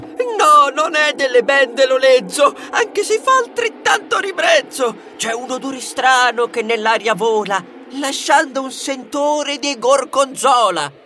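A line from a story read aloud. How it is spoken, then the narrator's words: Shrieking. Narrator (Italian): strillava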